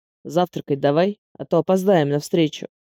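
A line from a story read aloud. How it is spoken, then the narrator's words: Displeased grumble. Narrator (Russian): Недовольным тоном почему-то пробурчал Андрей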